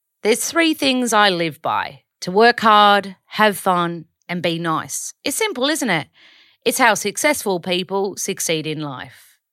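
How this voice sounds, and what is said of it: Imitated British accent, Joe Wicks. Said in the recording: “I really want to do it in a British accent because he's British. ... I probably didn't do a very good job there.”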